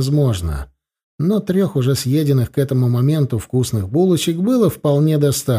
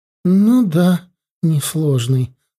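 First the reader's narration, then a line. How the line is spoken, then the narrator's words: Sighing. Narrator (Russian): вздохнула Джоан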